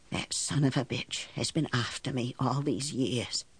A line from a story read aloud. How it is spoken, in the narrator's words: whispered